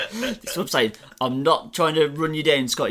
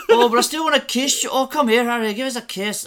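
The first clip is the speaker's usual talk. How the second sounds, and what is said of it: Put-on Scottish accent. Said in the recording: “Cho Chang is improved tenfold by giving a Billy Connolly's accent ... Scottish people ... wonderful accents”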